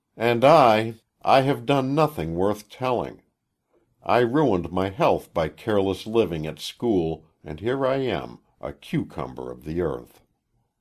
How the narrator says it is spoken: She sighed in the world-old manner of women and said

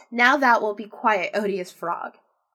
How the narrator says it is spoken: said she

